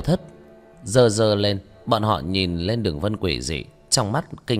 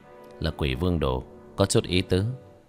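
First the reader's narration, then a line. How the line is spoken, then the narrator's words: Soft smile. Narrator (Vietnamese): khẽ mỉm cười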